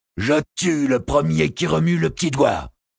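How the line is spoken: Sorcerer's cutting voice. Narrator (French): fit le sorcier d'une voix tranchante

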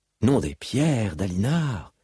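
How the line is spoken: Sighing. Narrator (French): dit-elle en soupirant

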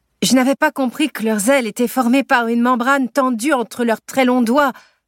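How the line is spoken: Shouting over wind noise. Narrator (French): hurle Jonathan pour surmonter le bruit du vent et des ailes qui brassent l'air

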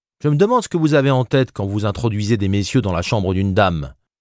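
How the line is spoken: Haughty, arrogant tone. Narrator (French): déclara-t-elle d'un ton rogue

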